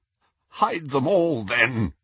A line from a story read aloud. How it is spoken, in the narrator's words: he croaked